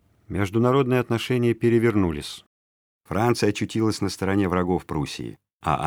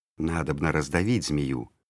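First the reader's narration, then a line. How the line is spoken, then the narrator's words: Enemies whispering. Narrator (Russian): шептали Петру враги Екатерины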